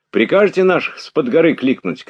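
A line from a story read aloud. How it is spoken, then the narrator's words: Shouting. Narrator (Russian): крикнул он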